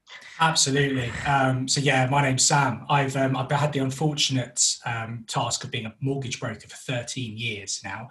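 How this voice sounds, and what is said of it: North London accent. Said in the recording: “we're originally from North London, which is why I have this wonderful accent”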